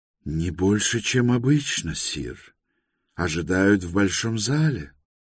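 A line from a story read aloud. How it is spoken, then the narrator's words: Calm reply. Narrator (Russian): спокойно ответил Бродрик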